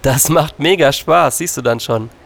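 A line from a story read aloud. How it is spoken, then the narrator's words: Laughing. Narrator (German): lachte Fiona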